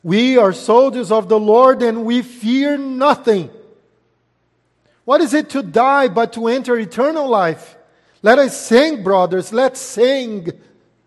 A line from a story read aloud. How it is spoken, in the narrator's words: running, some of the soldiers shouted